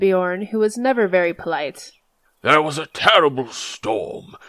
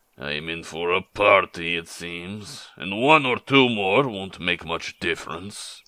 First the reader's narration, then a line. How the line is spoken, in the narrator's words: growled Beorn